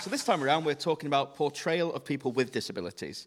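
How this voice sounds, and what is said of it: British accent like a Ken Loach film. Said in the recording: “I haven't got the accent for upbeat. I've got the accent of like a Ken Loach film.”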